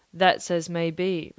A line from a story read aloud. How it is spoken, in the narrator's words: replied the captain